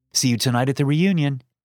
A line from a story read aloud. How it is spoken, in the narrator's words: it said